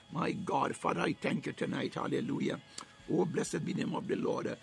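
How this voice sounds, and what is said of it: Strained, struggling voice. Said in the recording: “My voice is a little bit challenging tonight.”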